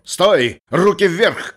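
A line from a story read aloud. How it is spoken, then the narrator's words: Menacing shout. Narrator (Russian): крикнул дипломат как можно более грозно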